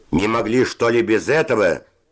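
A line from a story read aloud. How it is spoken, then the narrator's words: Shouted. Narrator (Russian): закричал Севочка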